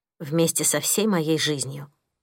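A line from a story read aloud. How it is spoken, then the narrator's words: Grumbled. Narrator (Russian): буркнула Мия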